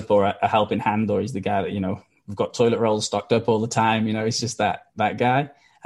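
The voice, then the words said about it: Welsh accent. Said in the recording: “if you can't tell by the accent, I'm not from Australia, I'm from Wales”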